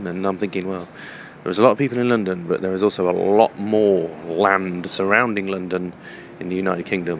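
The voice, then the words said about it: British accent. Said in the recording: “The British accent I have”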